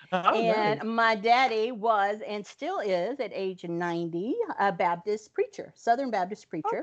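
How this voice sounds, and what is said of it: Rural North Carolina Southern accent. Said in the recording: “I'm going to have to kick in the accent because I grew up in rural North Carolina.”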